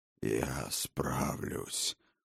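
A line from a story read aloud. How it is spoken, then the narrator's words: Hoarse rasp. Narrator (Russian): прохрипел отец богов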